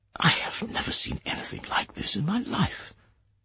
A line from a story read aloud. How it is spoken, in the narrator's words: The Prime Minister murmured